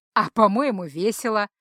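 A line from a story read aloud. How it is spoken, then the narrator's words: Laughing. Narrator (Russian): засмеялся Ранрео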